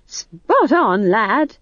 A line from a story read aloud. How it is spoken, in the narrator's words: said Nanny cheerfully